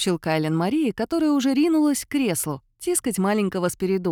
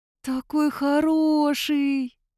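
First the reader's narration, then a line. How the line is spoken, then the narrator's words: Drawn-out, tender. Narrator (Russian): протянула она снова очень умилённо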